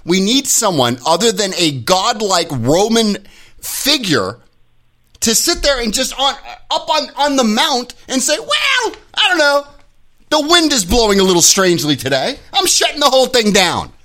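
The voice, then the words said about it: Yelling, angry ranting. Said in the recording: “I'm yelling at”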